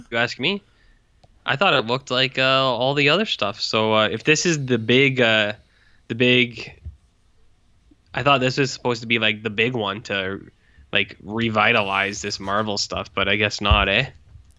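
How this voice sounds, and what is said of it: Very thick Canadian accent. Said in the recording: “I have the thickest Canadian accent that another person has ever heard ... you still have the thickest Canadian accent I've ever heard ... Yeah, that is true.”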